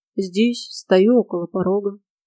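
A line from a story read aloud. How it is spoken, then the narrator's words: Very sad reply. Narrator (Russian): очень грустно отозвался приятель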